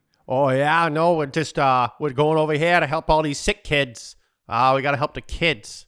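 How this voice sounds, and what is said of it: Put-on South Boston Irish accent. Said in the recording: “a South Boston Irish accent. ... That's South Boston.”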